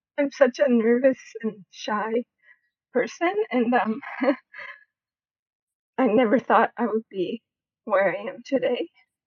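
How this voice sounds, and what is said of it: Emotional, shaky tearful voice. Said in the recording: “I'm getting emotional ... I never thought I would be so emotional”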